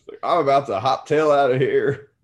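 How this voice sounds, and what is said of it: Drunk babbling Southern accent. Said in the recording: “She's like babbling away in her drunk Southern accent.”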